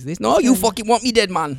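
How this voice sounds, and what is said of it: Put-on Jamaican Geordie accent. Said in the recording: “What's that, Jamaican? ... Yeah, he's Jamaican Geordie.”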